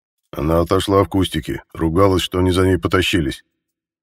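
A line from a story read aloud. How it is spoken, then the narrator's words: Gloomy mutter. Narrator (Russian): мрачно буркнул Михаил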